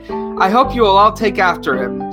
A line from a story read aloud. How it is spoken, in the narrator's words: she said wistfully